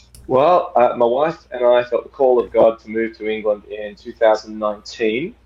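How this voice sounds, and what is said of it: Accent not fully British. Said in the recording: “I'm detecting an accent that is not fully British.”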